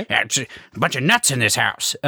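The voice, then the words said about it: Imitates another person's voice. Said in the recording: “this is how he sounded. I'm doing a very good impression.”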